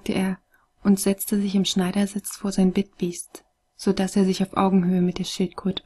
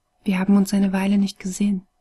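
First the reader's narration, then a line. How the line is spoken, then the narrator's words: Dry, cracked rustling voice. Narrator (German): raschelte die Stimme in seinem Kopf, trocken und brüchig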